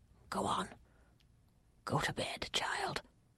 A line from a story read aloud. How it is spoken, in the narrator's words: whispered